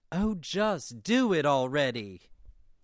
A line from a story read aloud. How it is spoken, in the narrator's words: Xander bellowed in exasperation